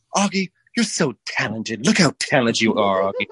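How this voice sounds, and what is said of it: Flowery rich kid accent. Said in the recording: “She talks like very flowery ... she would talk to me like this ... rich kid accent”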